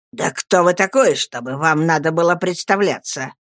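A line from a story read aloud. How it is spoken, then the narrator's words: Sharp retort. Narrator (Russian): резко бросил Урия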